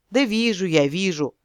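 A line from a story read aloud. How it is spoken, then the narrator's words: Amused snort. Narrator (Russian): хмыкнул оборотень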